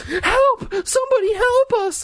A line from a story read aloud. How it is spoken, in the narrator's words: Mike scream